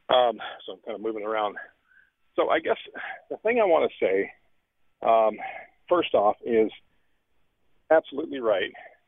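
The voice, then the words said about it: Out of breath. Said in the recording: “pardon me for my out of breath.”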